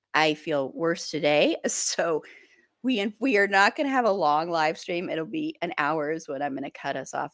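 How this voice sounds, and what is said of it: Congested voice with a cold. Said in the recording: “my voice is lovely and beautiful right now because I have a cold.”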